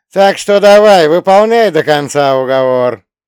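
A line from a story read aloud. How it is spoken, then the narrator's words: Shouted with a smirk. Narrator (Russian): с усмешкой крикнул Бутурлин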